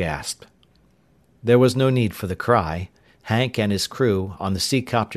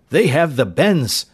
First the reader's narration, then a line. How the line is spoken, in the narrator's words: Arv Hansen cried in alarm